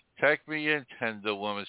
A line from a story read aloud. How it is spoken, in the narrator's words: sighed the snake